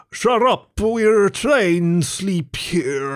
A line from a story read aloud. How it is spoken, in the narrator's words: a voice from the ditch bellowed